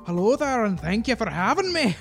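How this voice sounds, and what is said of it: Put-on Scottish accent. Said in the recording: “It's more Scottish. ... sound Scottish.”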